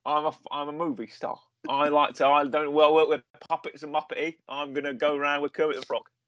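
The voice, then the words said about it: Imitates another person's voice. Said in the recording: “your Michael Caine impression”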